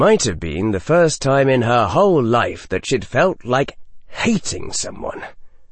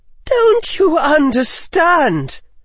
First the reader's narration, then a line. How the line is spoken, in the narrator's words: Daphne's voice was barely below a shriek